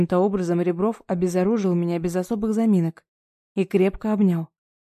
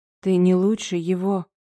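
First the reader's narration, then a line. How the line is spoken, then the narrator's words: Hoarse rasp. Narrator (Russian): прохрипела я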